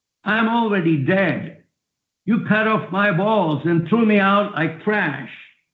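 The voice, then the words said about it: Shouting. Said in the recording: “I'm shouting like this”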